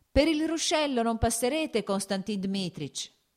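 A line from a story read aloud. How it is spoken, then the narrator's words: Boy shouting. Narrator (Italian): gridò il garzone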